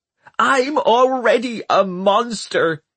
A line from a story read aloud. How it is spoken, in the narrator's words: she shrieked